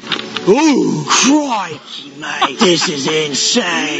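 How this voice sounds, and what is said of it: Steve Irwin impression, Australian accent. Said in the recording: “do a Steve Irwin impression”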